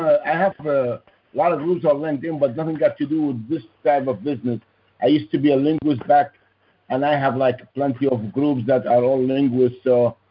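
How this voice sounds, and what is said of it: Foreign accent in English. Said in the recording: “I know you have an accent.”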